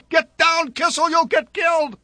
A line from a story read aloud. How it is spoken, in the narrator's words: yelled